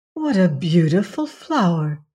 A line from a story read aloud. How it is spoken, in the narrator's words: exclaimed the woman